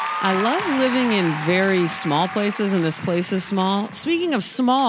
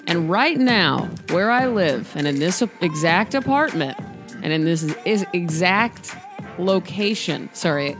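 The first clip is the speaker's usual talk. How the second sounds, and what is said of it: Stuttering speech. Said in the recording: “I'm stuttering”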